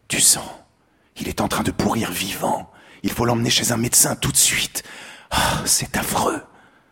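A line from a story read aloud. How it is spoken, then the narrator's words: Murmured. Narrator (French): Elle murmura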